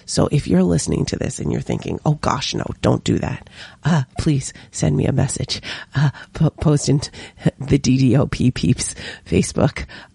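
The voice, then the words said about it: Hoarse, nearly lost voice. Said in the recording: “my voice is completely gone”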